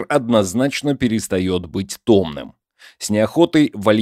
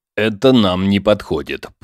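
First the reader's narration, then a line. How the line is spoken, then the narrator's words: Through gritted teeth. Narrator (Russian): процедил Егор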